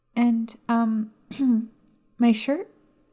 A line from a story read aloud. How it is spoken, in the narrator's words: she timidly asked